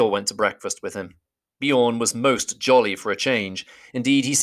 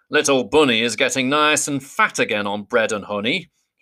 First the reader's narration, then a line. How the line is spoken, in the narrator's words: he chuckled